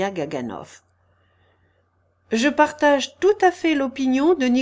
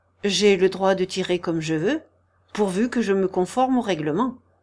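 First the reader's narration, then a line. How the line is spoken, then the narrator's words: Firm remark. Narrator (French): observa d'un ton ferme Nicolas Vsevolodovitch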